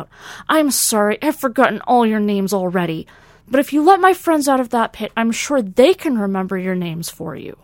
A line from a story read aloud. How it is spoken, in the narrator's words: Lieutenant Vaughn blurted out